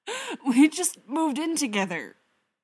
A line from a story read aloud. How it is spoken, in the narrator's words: Bruce wheezes